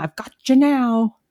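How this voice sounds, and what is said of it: Old-time New York accent. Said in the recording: “that 1930s, 40s New York accent”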